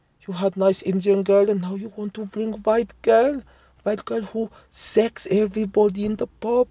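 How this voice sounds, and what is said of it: Shaky put-on Indian accent. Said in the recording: “I can't do an Indian accent. ... I thought it started off okay. Then it got loose. I lost the confidence. ... I didn't commit to it.”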